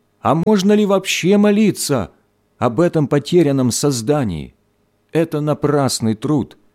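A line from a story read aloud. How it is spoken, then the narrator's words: Frantic shout, woman. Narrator (Russian): Женщина вне себя закричала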